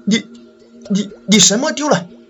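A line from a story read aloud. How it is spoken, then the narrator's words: Trembling question. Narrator (Chinese): 我颤声的问道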